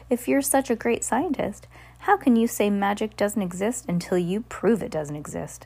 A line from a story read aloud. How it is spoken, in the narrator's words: Bruce laughed loudly